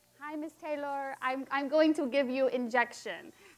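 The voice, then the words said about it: Put-on Indian accent. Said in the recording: “I'm going to try to speak in an Indian accent, but I have to warn people, my accent always goes Australian”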